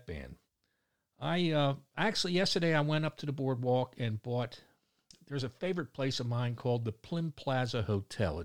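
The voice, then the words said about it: Baltimore accent. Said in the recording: “pardon my Baltimore accent. A lot of people around the world are wondering where I'm from.”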